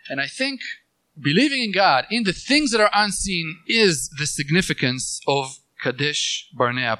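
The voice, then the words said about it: Speaks with a noticeable accent. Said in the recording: “Probably I'm saying it in a funny way with my accent”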